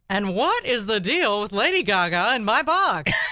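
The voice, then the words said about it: Jerry Seinfeld impression. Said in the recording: “Oh, that's a great impression.”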